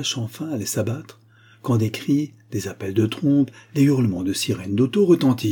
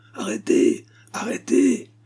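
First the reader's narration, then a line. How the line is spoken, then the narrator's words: Shouting. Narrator (French): criait-on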